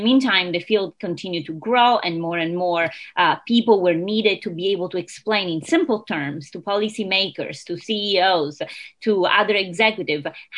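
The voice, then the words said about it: Italian accent. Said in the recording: “You clearly have an accent that is not Rhode Island... It's not Rhode Island accent, but I was originally born and raised in Italy”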